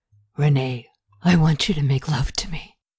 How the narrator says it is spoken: She smiled with passion and in a low growl said

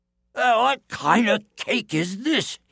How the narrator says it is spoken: he cried

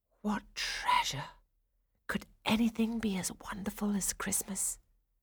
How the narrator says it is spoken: Clara thought dreamily

